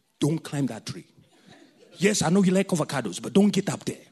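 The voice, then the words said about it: Put-on African accent. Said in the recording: “I'm going to put my full African accent.”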